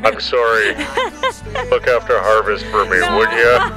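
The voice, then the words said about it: Put-on big deep voice. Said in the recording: “with his big, deep voice”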